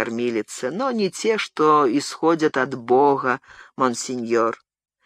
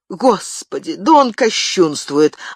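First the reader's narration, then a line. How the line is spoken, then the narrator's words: Nurse's exclamation. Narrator (Russian): воскликнула кормилица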